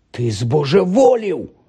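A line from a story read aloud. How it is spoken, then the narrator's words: Exclaiming. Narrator (Ukrainian): вигукнув Рон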